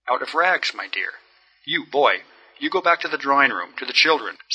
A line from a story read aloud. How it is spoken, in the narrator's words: said Julian Mastakovich, looking at the boy sternly